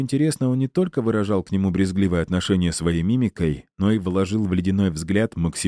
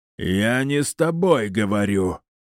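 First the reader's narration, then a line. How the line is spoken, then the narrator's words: Spluttering yell. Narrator (Russian): брызжа слюной проорал Титан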